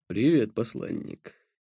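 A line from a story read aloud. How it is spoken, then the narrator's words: Resonant deep voice. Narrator (Russian): сказал он звучным и глубоким голосом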